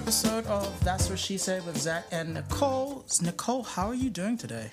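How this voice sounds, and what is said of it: Put-on British accent. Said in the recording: “you make it sound better... It's a British accent.”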